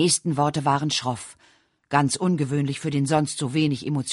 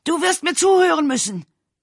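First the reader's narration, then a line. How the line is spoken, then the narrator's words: Shouted. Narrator (German): brüllte Edgar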